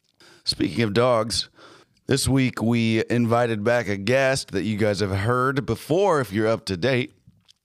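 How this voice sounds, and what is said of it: Sick voice from respiratory infection. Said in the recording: “Please excuse my voice. I'm getting over some kind of a respiratory infection right now... I am sick as a dog... I got bronchitis.”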